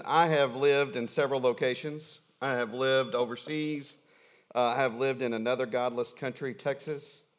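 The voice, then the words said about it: Thick regional accent. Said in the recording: “my accent just began to come back and really with a vengeance ... the accent gets thicker and thicker and thicker”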